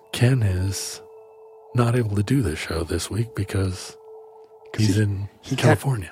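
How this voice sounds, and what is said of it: Whispery late-night DJ voice. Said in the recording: “you whispering? ... He can't do this voice. ... You're a late night DJ.”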